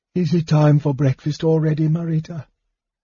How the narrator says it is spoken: Matafleur, Flamestrike being her name to common mortals, said in a sleepy, husky voice

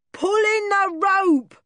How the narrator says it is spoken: shouted Buffalo

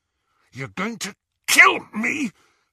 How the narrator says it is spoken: Harry choked

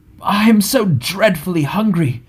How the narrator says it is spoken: groaned Bilbo, who was suddenly aware that he had not had a meal since the night before last

